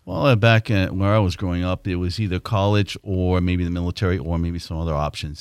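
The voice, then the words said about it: Massachusetts accent. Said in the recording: “obviously, from my accent, I'm not from this area... I was born in Massachusetts”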